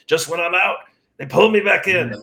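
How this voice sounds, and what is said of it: Imitates a Godfather movie character. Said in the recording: “Godfather impersonation”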